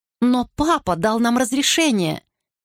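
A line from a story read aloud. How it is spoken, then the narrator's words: Exclaiming. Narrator (Russian): воскликнула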